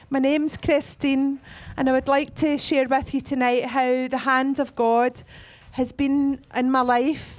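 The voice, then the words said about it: Scottish accent, slightly congested voice. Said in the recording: “the Scottish accent, and I've had a bit of a cold”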